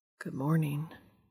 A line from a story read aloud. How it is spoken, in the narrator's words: Dean says quietly